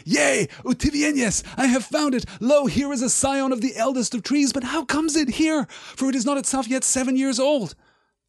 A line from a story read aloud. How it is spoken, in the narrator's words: Aragorn cried